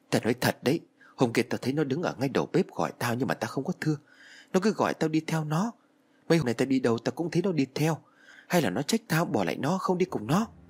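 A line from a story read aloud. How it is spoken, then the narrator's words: Nervous, trembling. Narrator (Vietnamese): Thằng Hữu tay nó cứ run rẩy bảo với tôi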